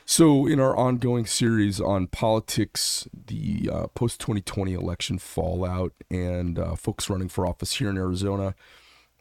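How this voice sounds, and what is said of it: Hoarse, raspy voice. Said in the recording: “Cranky voice today. Woke up with a little laryngitis ... I've got more timber than I'm used to having.”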